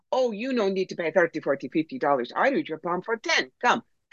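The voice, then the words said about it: Bad put-on fortune-teller accent. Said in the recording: “your typical fake gypsy ... and the bad accent”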